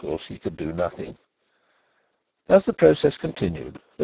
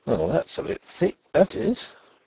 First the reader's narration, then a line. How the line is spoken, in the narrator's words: He muttered